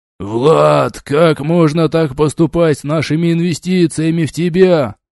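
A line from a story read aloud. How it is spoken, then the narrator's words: Outraged potbellied gnome yelling. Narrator (Russian): завопил весьма чем-то возмущенный совершенно пузатый гном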